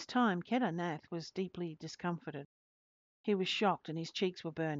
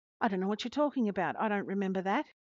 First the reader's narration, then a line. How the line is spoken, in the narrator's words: exclaimed